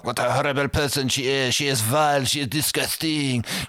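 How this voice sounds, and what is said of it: Terrible exaggerated French accent. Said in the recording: “He does a horrible French accent... Patrick Stewart put on such a terrible French accent... almost allo levels of French accent”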